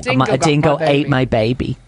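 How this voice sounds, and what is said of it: Meryl Streep's Australian accent impression. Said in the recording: “That's my Meryl Streep Australian accent.”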